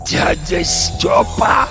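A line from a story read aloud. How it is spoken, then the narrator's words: Hoarse croak of recognition. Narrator (Russian): прохрипел Горемыкин, узнавая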